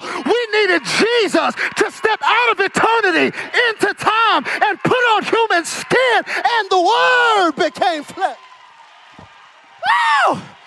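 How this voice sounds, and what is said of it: Shouting, loud preaching. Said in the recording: “That's why I'm shouting”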